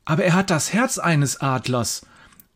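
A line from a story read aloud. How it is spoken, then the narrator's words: Horrified exclamation. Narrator (German): ruft der Biologiestudent und schaut den Bauern dabei entsetzt an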